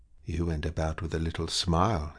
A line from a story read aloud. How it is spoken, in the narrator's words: he whispered, as one would mention an inconceivable marvel